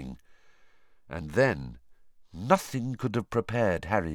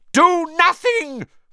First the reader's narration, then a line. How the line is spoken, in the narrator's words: Voldemort shrieked to the Death Eaters